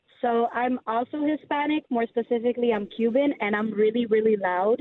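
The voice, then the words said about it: Hoarse, nearly lost voice. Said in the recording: “as you can tell, I have party girl voice, because I screamed on Saturday ... I don't even have a voice.”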